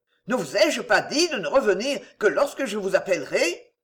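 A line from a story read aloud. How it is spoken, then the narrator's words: Impatient exclamation. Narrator (French): s'écria Don Martin, impatienté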